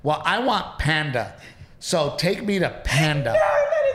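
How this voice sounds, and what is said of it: Imitates another person's voice. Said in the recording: “That is your impression of me.”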